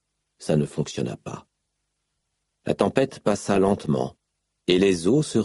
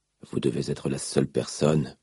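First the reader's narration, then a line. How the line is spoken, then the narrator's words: Murmured. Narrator (French): murmura-t-il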